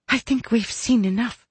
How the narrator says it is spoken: whispered Mary

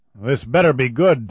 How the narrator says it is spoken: Tom Douglas growled

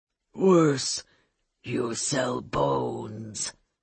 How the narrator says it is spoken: Olga said, her voice low and savage, but it went through the room like a shout

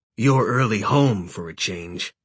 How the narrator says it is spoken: he growled

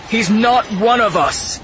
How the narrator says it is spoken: Torben shouted

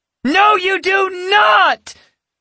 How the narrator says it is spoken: Yasmin screeched, her eyes suddenly filling with tears

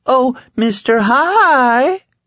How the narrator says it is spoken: Heck Drogon said in a coy falsetto

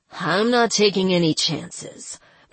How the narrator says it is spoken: Baraka growled

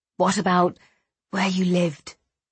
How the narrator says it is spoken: Patrick asked softly

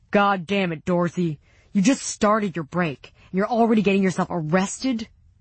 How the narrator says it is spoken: the yelling

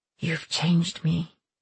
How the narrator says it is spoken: he breathed

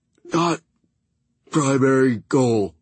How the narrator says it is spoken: he managed to croak

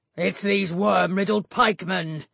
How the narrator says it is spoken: he bellowed

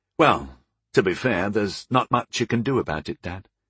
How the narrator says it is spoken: I said a little gently

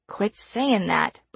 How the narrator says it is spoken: Brody grumbled

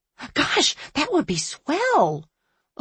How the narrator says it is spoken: Ophelia said excitedly

